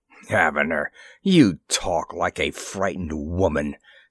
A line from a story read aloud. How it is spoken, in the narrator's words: sneered the viceroy